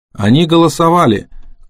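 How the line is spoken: Shouted. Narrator (Russian): крикнула Кэрол

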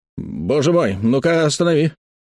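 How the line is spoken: Sudden exclamation. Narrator (Russian): Внезапно Уэбстер Фуд воскликнул

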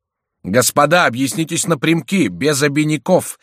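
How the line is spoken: Thunderous shout. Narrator (Russian): вскричал Мажерон громовым голосом

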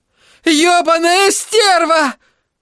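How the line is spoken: Shouted again. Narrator (Russian): снова выкрикнула Кэрри

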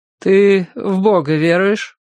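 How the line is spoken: Hardened voice, question. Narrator (Russian): затвердевшим голосом спросил брат Нефёд

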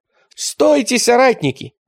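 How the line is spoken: Exclaiming. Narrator (Russian): воскликнул он

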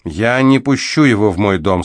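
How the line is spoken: Calm. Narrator (Russian): спокойно сообщила она

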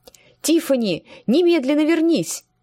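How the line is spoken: Shouting. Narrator (Russian): закричала она

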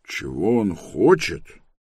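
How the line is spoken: Thoughtful repetition. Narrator (Russian): Задумчиво повторил он

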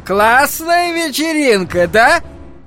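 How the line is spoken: Piercing shout. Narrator (Russian): Пронзительно прокричал он ей в лицо

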